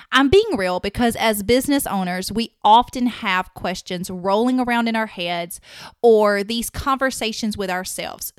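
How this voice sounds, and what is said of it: Strong Southern American accent. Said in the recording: “wondering if my southern accent is just too strong to be a host”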